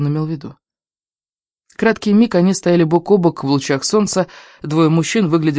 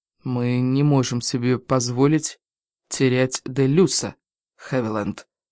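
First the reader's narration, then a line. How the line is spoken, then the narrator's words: Quiet. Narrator (Russian): тихо произнес он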